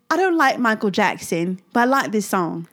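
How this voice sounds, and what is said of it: Put-on British accent, sounds Australian. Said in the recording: “That was my British accent. Sorry. ... I think it sounds more Australian”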